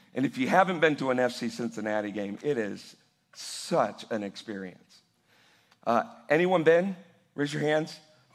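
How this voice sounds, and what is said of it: Slightly hoarse voice. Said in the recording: “my voice is a little hoarse today because I was in the Bailey section of FC Cincinnati last night.”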